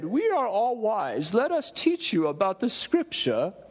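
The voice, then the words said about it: Put-on accent. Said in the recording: “Do you like my, my accent? That was a good accent. I've been working on that.”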